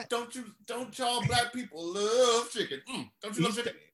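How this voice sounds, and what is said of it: Imitates another person's voice. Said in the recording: “We're doing Viggo Mortensen exactly. This is what he sounds like. ... the research I put into this impression right here”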